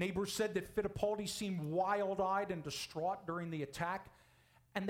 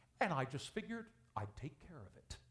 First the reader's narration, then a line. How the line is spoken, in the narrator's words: calmly said